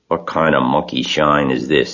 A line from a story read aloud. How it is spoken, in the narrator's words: he growled